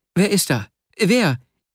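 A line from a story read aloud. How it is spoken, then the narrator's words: Startled call. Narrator (German): rief, von seinem Platz aufspringend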